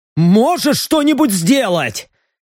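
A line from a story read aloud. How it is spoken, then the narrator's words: Panicked shout. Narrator (Russian): Не скрывая паники, буквально крикнул он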